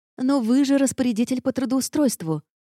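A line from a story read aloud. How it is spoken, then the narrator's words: Desperate exclamation. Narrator (Russian): воскликнула я в отчаянии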